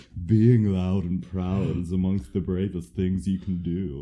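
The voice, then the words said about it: Imitates a character's voice. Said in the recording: “I don't know why I'm trying to do his voice.”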